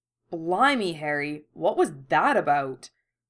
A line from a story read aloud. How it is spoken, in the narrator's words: Fred exclaimed